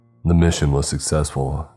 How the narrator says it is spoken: Cart said

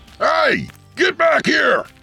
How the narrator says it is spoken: the gunman shouted

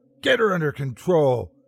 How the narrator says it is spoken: shrieked

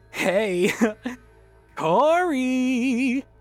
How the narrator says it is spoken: Danny giggled

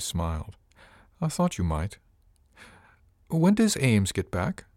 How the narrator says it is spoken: I asked, keeping my voice as steady as I could

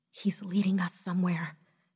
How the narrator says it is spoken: Jessica whispered excitedly

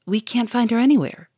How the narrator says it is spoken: said the inspector

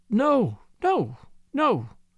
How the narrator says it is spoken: cried Miss Linderham, thought she was weeping

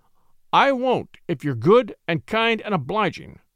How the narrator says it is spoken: said sternly

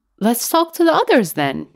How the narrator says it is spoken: he said eagerly, as if to a child

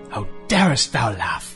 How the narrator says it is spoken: she howled at the children

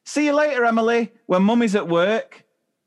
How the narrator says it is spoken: she turns and yells to the nursery assistant

